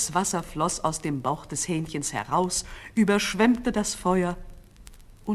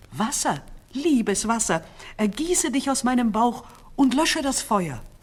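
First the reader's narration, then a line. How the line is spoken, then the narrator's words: Calling out. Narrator (German): Es rief nur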